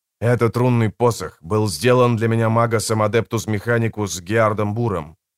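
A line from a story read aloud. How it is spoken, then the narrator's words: Plain. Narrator (Russian): сказал я Расси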